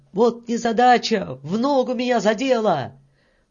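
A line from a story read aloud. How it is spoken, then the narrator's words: Shouted. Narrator (Russian): крикнул кому-то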